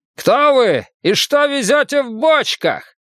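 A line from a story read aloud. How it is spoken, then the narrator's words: Distant shout like echo. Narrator (Russian): Крик раздался откуда-то спереди, словно бы кричало к нам лесное эхо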